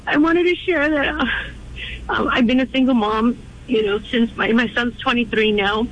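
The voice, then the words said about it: Emotional, shaky voice. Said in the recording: “I'm a little bit emotional right now.”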